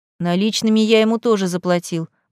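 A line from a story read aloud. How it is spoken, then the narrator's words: Resigned grumble. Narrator (Russian): буркнул я, смиряясь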